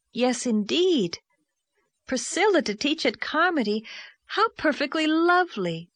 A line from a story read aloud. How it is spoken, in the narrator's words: exclaimed Anne